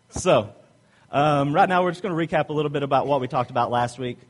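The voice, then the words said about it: Southern accent, fast talking. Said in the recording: “obviously I have an accent ... I'm from the South ... Southern drawl ... my mouth starts moving faster than my words sometimes”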